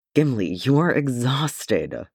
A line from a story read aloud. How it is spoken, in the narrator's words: Thorin groaned